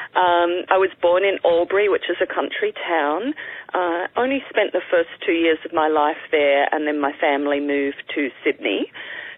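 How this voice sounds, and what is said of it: Australian accent. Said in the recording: “I'm from Australia. You probably noted the similar accent to yours.”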